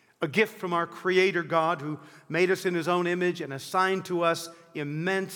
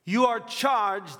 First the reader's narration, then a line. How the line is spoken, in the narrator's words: would shout down to him